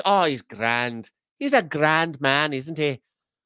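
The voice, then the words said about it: Put-on Irish accent, not very good. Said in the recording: “Not the right accent. Northern Ireland accent is singular... I only got one Irish accent... I just use the Irish accent that I got... it's not even that good”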